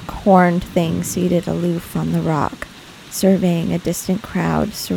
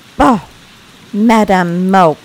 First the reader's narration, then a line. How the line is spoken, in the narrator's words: cried the voice of John Reed